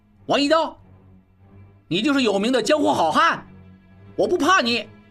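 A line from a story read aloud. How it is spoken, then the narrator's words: Sudden desperate shout. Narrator (Chinese): 小栓忽然拼命大喊道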